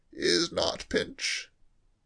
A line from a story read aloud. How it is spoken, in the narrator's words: said George, speaking in a low, husky voice